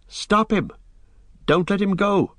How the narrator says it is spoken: cried Pippin

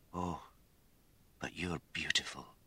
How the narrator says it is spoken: he whispered

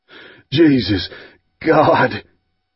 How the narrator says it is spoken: Stice panted

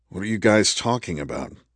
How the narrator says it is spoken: Selena sighed

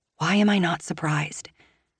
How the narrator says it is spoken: I whisper to myself

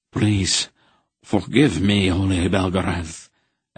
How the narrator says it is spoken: Enderig begged in a strangled voice

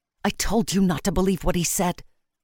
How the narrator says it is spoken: hissed

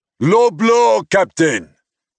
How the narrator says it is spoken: He yelled after us

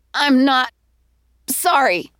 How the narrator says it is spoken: she wheezed

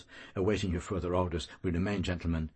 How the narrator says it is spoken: Bloom mumbles

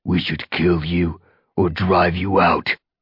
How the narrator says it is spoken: Darkstripe snarled at Firestar

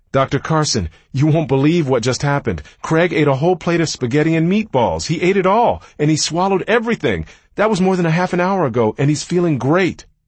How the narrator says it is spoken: she shouted

